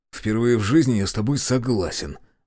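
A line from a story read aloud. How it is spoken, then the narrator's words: Grumble. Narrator (Russian): буркнул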